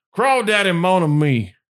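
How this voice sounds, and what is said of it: Put-on Creole accent. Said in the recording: “my Creole accent ... Gotta get that upper emphasis.”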